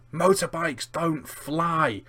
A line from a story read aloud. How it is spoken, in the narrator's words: Vernon to nearly crash the car, and yells